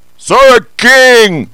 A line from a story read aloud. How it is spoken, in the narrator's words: the fellow shouted